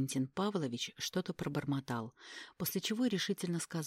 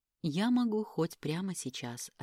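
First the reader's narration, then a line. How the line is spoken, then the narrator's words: Plain. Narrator (Russian): ответила я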